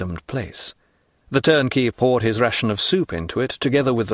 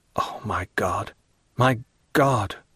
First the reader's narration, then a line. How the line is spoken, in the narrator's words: murmured he